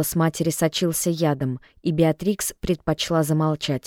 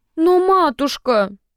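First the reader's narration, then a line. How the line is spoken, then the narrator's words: Whiny drawl. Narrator (Russian): плаксивым голосом протянула Беатрикс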